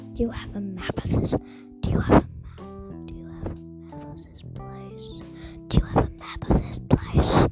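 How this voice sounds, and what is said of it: Whispering. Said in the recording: “Why are we whispering? ... Because we don't want them to hear us.”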